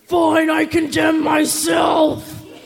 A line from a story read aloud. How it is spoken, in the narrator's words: yelling